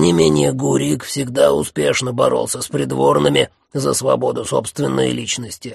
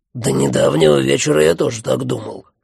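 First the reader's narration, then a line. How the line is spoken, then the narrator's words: Grumbling. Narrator (Russian): проворчал Джуффин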